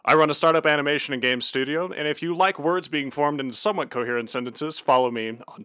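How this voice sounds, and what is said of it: Smooth rich radio voice. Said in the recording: “you have the most beautiful radio voice I've ever heard”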